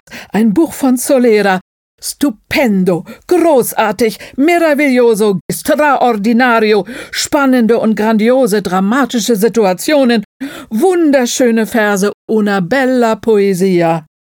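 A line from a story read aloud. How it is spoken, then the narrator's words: Exclaiming. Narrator (German): rief Mirelli aus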